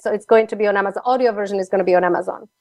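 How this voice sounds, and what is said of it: Slovak accent. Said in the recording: “my Slovak accent”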